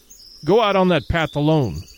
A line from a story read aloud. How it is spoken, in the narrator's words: said Travis